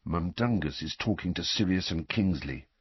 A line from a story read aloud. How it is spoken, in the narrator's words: Fred muttered, frowning with concentration